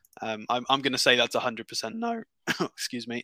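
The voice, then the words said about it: Voice cracks up to high pitch. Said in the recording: “your voice has gone up to another level ... I'm struggling with my voice. It's going.”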